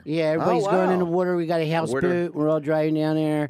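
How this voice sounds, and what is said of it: Put-on Delaware Philly-ish accent. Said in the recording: “There's a Delaware accent? ... it's got a Philly-ish slash ... Now that you're doing that accent, I hear it too.”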